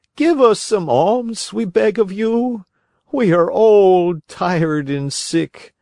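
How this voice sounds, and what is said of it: Tearful pleading voice. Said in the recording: “in a tearful voice”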